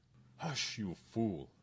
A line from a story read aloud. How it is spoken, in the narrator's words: Father Luis exclaimed